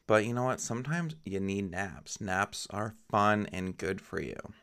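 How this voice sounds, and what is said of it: Low, sultry, sleepy voice. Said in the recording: “I am tired. I just woke up after a pretty good nap ... sorry if my voice sounds extra sultry. It's probably just because I just woke up.”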